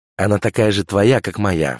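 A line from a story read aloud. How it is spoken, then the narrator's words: Snorting. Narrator (Russian): фыркнула Няша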